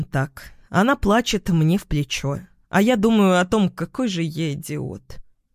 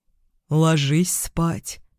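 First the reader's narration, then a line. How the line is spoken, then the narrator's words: Soft. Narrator (Russian): говорю мягко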